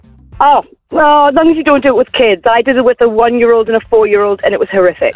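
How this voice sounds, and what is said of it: English accent, northern England. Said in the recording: “you've got an English accent ... I'm from near Newcastle”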